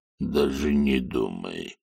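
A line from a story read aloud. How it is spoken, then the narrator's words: Even, flat voice. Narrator (Russian): Ровным голосом сказал тролль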